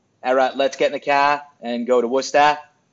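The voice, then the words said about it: Put-on Massachusetts accent. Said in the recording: “I've been speaking in a Massachusetts accent since we drove up here.”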